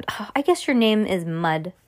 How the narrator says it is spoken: Dad said, laughing

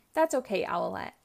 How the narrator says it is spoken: Catboy says

